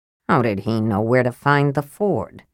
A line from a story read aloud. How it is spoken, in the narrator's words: Sturm asked in a low voice